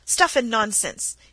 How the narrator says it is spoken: he exclaimed angrily

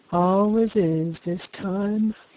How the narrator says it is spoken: he said, yawning

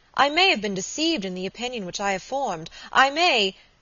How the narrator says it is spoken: she exclaimed

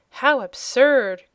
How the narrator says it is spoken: cried Cobalt

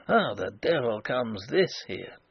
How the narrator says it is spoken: mutter

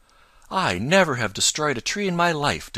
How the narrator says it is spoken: declared Chatterer indignantly

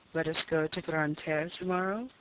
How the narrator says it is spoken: said Robert in a low voice

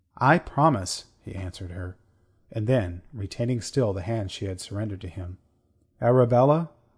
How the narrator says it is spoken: he said very gently

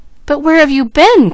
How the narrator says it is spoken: cried the boy

